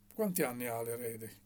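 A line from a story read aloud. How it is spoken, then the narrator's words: Plain. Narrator (Italian): chiese Barcelò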